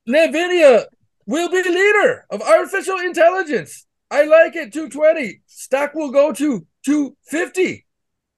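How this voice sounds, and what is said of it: Put-on Indian accent. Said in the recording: “That's Indian... talk like a person from another country... You sound like the worst improver ever... I'm trying to talk like Vivek did today”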